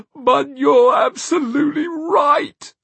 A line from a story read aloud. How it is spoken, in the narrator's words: wailed Magwitch